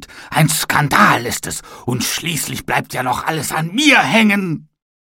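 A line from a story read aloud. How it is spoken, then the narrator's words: Angry shouting. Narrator (German): schrie er wütend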